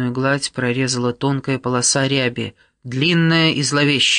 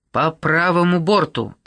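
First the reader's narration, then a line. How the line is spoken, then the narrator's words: Barking. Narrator (Russian): рявкнула Каррера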